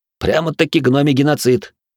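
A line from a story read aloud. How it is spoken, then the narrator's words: Snorting young man. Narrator (Russian): хмыкнул парень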